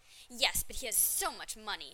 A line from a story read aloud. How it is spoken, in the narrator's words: she said scornfully